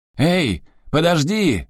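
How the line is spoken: Shouting after someone. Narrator (Russian): закричал ему вслед идиот с игрушкой

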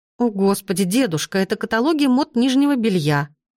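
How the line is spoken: Exclamation. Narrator (Russian): воскликнула я

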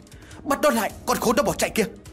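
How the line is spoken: Loud shout. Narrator (Vietnamese): A Lễ liền hét lớn

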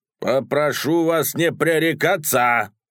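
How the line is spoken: Gruff man roaring. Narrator (Russian): взревел угрюмый тип

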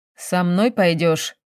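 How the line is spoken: Grumbling. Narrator (Russian): проворчал Валерий

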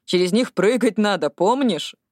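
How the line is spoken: Laughing, then embarrassed. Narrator (Russian): Она рассмеялась, но тут же смутилась

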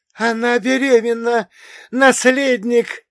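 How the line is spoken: Joyful shout. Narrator (Russian): радостно закричал он

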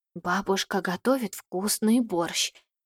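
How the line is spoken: Whispered, boy. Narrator (Russian): поделился со мной шепотом мальчик

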